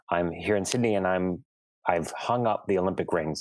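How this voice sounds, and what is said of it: American accent. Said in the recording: “I have the American accent.”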